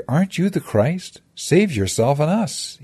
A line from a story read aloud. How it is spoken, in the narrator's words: he exclaimed